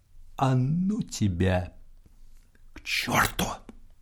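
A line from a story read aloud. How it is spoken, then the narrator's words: Quiet, resigned. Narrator (Russian): Поручик махнул рукой и сказал тихо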